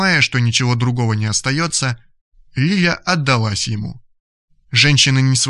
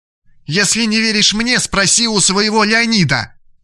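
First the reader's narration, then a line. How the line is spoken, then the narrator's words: Hysterical woman's shout. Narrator (Russian): закричала женщина, уже не владея собой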